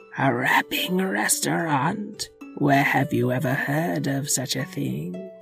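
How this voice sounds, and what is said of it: Evil witch voice. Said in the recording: “put on your evil witch voice”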